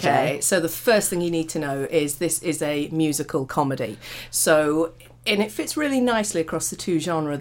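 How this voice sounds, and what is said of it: Slightly croaky voice. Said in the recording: “I don't know if you can hear in my voice, I'm a little bit croaky. And that is genuinely because I was guffawing, laughing last night.”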